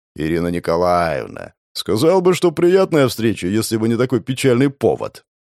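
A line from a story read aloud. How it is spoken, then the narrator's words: Deep bass voice. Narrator (Russian): пробасил атаман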